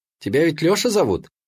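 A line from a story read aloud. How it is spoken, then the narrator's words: Cheerful, young girl. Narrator (Russian): продолжила все так же весело девчонка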